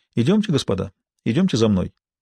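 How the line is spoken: Casual, friendly. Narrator (Russian): Бувуа заговорил непринужденным и дружелюбным тоном

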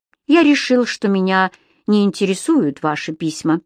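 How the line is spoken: Plain. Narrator (Russian): сказал Кэмерон

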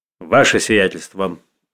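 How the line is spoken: Sharp voice breaking silence. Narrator (Russian): прервал князь Андрей молчание своим резким голосом

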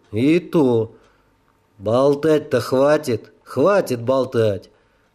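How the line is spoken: Gloomy muttering. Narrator (Russian): Уныло пробурчал длинный полицай

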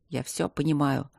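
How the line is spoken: Quiet, self-disgusted. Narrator (Russian): сказал он тихо, чувствуя себя омерзительно

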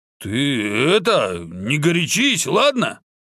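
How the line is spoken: Nervous slight stutter. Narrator (Russian): К угрозе Фатмы уйбуй отнесся настолько серьезно, что стал слегка заикаться

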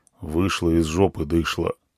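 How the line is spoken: Gloomy. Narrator (Russian): мрачно сказал он

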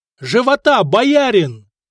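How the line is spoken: Bold shout. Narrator (Russian): крикнул Хонза, сам не ожидая от себя такой смелости

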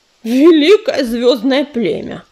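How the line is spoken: Hissing smoke. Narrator (Russian): прошипел дым

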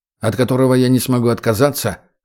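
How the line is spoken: Scoffing. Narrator (Russian): хмыкнул егерь

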